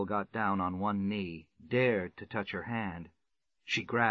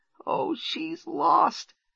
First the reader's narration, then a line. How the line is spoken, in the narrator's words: sobbed the little girl